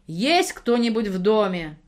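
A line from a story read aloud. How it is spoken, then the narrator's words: Startlingly loud shout. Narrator (Russian): закричала Семенова так, что я вздрогнула всем телом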